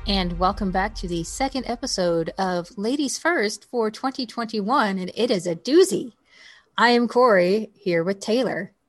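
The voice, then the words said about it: Overly affected announcer voice. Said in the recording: “I don't know why I'm talking this way. ... it's my little announcer voice, overly affected.”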